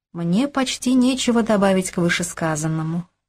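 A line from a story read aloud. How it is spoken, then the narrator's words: Calm, confident. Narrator (Russian): спокойно и уверенно произнесла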